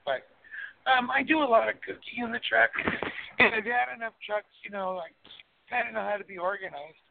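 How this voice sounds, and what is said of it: Hoarse voice. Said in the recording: “I'm getting over a cold, so I sound hoarse.”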